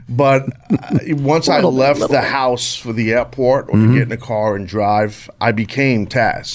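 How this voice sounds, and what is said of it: New York accent. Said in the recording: “I born and raised in New York, if you couldn't tell from my accent. ... I can tell.”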